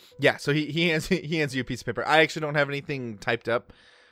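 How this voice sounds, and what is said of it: Usual voice. Nothing is said of it.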